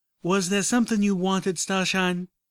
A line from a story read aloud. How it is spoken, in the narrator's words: Applejack interrupted impatiently